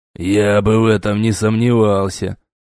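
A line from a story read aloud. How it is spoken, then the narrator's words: Mutter. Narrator (Russian): пробурчал Ок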